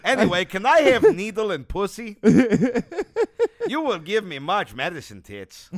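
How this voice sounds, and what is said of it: Bad put-on Russian accent. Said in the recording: “I also have like a Russian accent ... doing their bad accent”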